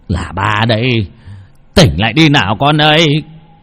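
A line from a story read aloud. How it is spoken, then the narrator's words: Shout. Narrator (Vietnamese): Ông Lâm hét lên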